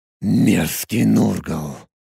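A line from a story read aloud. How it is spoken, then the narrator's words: Barely audible displeased hiss. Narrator (Russian): Недовольно прошипел на пределе слышимости Тарак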